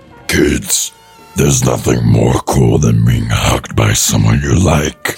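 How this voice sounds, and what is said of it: Sonic demon character voice. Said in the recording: “Sonic Demon voice”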